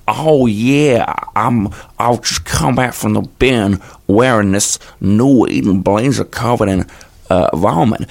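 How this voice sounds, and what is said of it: Ridiculous posh young man accent. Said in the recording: “a sort of a 23-year-old posh man just trying to make a voice up to sound as ridiculous as possible ... It's from Los Angeles via Italy”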